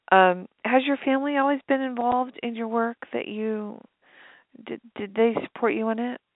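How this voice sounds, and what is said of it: Strained, fading voice. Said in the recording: “my voice is going. I had a, we have very funky weather here right now.”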